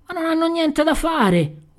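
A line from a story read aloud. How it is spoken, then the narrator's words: Yelling. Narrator (Italian): urlò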